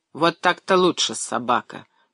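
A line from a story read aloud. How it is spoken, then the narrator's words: Grumbling. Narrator (Russian): пробурчал сержант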